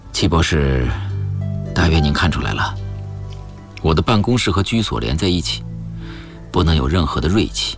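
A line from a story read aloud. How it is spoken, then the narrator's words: Sighing. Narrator (Chinese): 修理……叹了一口气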